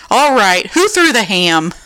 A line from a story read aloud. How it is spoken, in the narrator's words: shouting